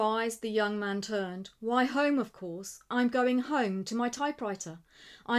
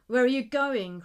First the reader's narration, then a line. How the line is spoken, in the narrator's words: cried Slugger